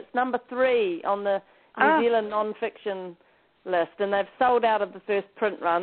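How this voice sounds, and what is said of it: New Zealand accent. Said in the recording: “your wonderful New Zealand accent.”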